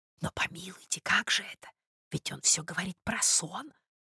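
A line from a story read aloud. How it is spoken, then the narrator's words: Anxious whisper. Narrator (Russian): прошептала Анна Николаевна, встревоженная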